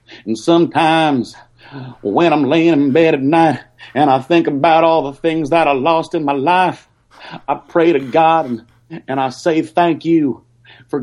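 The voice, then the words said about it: Soft, emotional country-style delivery. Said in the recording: “I'm gonna do some country. ... inner country ... I'm gonna get a little bit soft, a little bit emotional, because that's how country can get sometimes.”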